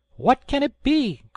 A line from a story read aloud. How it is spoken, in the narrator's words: cried they